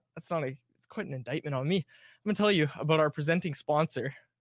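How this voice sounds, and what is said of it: Slightly out of breath. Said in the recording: “I'm a little out of breath after that.”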